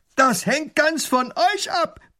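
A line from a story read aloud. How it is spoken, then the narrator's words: Robber roaring. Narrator (German): brüllt der Räuber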